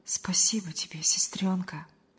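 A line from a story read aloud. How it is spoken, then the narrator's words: Heartfelt whisper. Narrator (Russian): От души прошептал Павел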